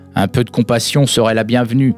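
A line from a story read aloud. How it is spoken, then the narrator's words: Growl. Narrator (French): gronda la libellule arc-en-ciel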